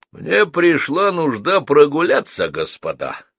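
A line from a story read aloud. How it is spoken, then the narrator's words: Rough booming voice. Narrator (Russian): прогудел над Геннадием грубый голос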